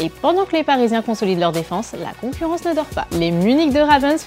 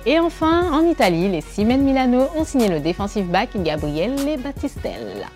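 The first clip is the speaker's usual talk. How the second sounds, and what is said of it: Put-on Italian accent. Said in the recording (French): “Vous le trouvez comment, mon accent italien Pas ouf”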